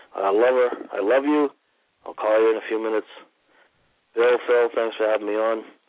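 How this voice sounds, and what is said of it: Hoarse, fading voice. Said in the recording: “I'm losing my voice because I have a really bad cold”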